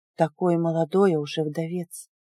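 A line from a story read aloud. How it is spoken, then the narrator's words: Sudden inner mutter. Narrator (Russian): вдруг пробормотала в моей голове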